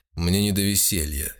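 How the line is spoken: Irritated. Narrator (Russian): раздраженно промолвил бюргермейстер

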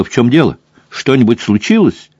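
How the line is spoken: Exclaiming. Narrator (Russian): Крисси даже подпрыгнула от удивления, а Тесса воскликнула

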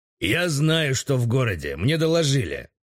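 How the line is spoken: Through gritted teeth. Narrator (Russian): ответил сквозь зубы Игорев

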